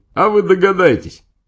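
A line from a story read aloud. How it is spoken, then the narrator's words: Speaking while laughing cheerfully. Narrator (Russian): тот весело хохотал и говорил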